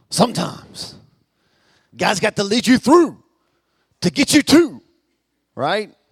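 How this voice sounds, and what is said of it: Preacher voice. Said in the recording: “do my best preacher voice”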